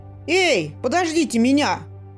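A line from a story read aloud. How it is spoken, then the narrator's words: Shouting after someone. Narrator (Russian): крикнул вдогонку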